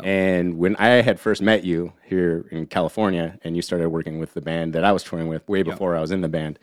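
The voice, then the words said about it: Accent people mistake for Texan. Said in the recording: “what the fuck's up with this guy's accent? ... how people always thought that you were from Texas.”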